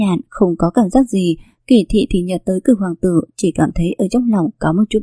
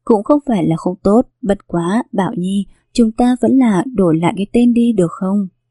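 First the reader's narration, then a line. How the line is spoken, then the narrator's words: Loud laughing speech. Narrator (Vietnamese): Kỳ Thị cười lớn mà nói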